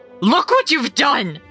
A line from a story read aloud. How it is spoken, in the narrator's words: She screamed into my ear, her shrill tone